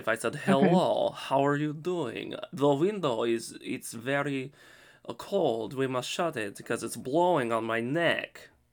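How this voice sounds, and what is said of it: Nondescript Eastern European accent. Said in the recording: “in the Russian category of an accent. Like, it was a nondescript European accent ... It almost sounds Transylvanian”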